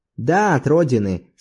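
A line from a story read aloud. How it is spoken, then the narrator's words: Calm, firm voice. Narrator (Russian): спокойным твердым голосом ответил Зорбас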